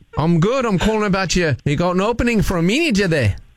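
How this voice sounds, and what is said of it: Put-on Australian accent. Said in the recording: “using my Australian accent.”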